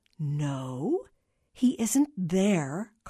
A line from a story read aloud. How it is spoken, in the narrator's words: Carla said slowly, hoping against hope